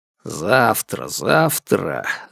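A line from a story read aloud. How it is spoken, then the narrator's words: Irritated, dismissive. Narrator (Russian): раздражённо отмахнулся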